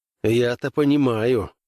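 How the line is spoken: Gloomy. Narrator (Russian): мрачно отозвался Граймс

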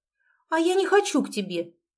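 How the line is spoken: Bold defiant shout. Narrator (Russian): выкрикнула она, смело встречая его взгляд

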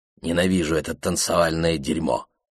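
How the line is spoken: Muttered. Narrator (Russian): пробормотал Кингсли

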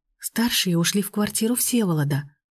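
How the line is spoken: Whispered explanation. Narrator (Russian): шепотом объяснила она

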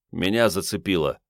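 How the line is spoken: Calm. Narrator (Russian): спокойно сказал лейтенант

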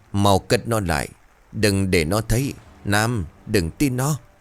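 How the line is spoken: Old man's loud hiss. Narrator (Vietnamese): Ông xua xua bàn tay về phía của Nam, miệng bấy giờ rít lớn

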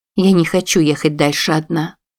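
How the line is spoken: Plain. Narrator (Russian): сказала она

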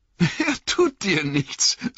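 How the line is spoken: Suppressing laughter, startled. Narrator (German): sagte Frodo und konnte sich kaum das Lachen verbeißen, obwohl er selbst erschrocken und ziemlich verwirrt war

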